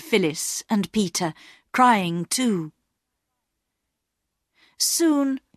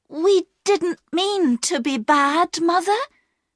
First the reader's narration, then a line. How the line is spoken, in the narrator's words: cried Bobby